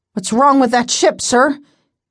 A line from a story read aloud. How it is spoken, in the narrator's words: Cable asked breathlessly